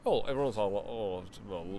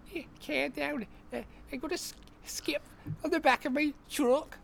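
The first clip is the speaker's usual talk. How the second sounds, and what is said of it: Attempted Scouse accent. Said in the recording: “Do a Scouse accent. ... You've got the intonation, I think.”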